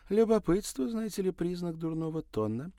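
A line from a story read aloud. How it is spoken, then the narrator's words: Flirtatious laughing. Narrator (Russian): кокетливо рассмеялась актриса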